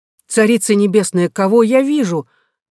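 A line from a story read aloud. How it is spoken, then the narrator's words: Exclaimed. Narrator (Russian): воскликнул он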